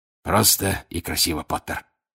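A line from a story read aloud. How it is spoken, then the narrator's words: Hoarse wheeze. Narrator (Russian): прохрипел он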